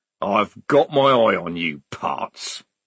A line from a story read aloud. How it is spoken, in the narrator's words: growled Strappy, temporarily defeated